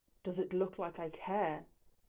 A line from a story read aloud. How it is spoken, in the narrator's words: He growls